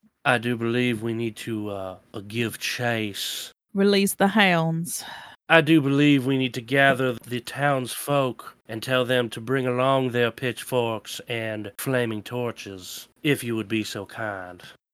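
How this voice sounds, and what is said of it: Refined southern Virginian accent. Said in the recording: “give folk heroes like a southern accent ... Virginia's got a very specific accent. They're all refined there.”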